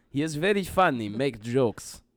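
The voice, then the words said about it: Put-on Russian accent. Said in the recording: “your Russian listener loved that accent”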